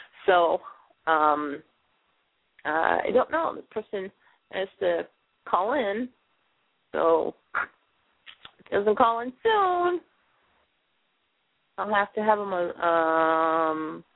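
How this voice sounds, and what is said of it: Scratchy, tired-sounding voice. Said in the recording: “Can you tell I'm tired? My voice is a little bit scratchy.”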